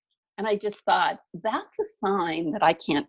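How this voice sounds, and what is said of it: Usual voice. Nothing is said of it.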